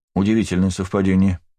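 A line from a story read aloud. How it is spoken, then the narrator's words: Dry remark. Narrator (Russian): сухо заметил я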